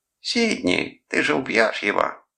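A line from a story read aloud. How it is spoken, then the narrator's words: Mimicking shrill girlish voice. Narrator (Russian): сымитировал он визгливый голос девушки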